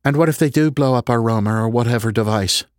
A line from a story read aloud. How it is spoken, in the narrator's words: Bridget said, her voice tense